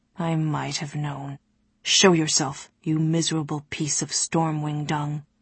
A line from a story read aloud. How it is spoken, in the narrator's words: he said, his voice still quiet